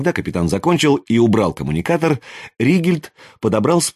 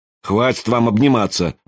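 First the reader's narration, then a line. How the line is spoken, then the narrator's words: Grumbling. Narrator (Russian): проворчал Ригельд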